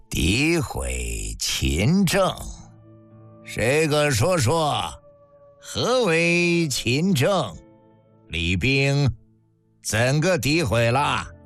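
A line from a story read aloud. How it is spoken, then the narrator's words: Cold, soft question. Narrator (Chinese): 这冷冷一笑，轻轻一问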